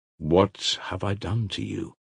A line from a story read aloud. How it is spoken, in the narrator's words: answered Alyosha, with a tender smile